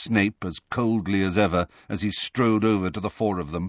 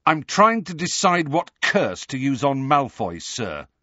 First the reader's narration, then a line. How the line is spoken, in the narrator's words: said Harry fiercely